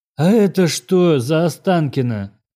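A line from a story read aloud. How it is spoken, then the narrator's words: Breathless exhale. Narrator (Russian): выдохнул дядя Гена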